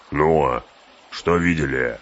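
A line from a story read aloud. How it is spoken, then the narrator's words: Growled. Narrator (Russian): рыкнул Углук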